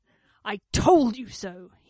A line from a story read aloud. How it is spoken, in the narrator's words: he snarled with relish